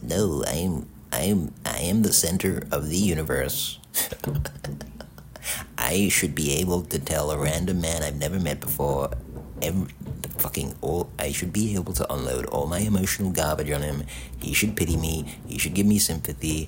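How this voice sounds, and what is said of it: Imitates another person's voice. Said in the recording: “My Reed impression.”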